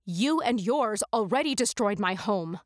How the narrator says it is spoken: I spat at him

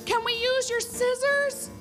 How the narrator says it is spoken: I called out to the bartender

